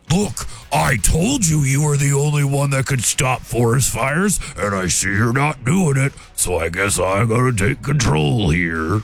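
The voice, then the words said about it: Imitates a bear's voice. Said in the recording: “That was my bear impression.”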